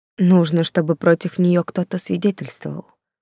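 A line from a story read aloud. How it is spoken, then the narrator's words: Sad, smiling. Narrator (Russian): грустно улыбнулась я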